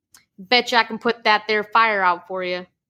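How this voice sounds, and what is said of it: Put-on thick hillbilly country accent. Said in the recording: “a scrawny hillbilly with a thick country accent ... I hope you like my hillbilly accent. I'm trying really hard.”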